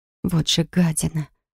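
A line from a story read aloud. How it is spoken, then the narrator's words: Whisper under breath. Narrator (Russian): прошептала я себе под нос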